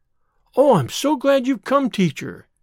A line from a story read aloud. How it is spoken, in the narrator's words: said eagerly